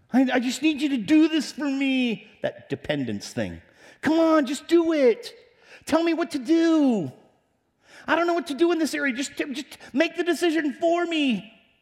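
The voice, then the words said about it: Imitates a dependent adult's voice. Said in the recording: “I'm imitating adults right there.”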